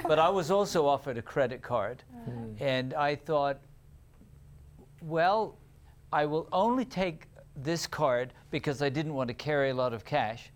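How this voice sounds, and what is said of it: British accent. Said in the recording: “my British accent will come back when I'm talking about it”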